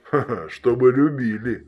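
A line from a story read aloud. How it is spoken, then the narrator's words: Laughing over phone. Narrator (Russian): рассмеялся в трубку он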